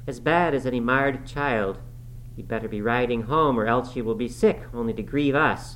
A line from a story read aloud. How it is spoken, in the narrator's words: called out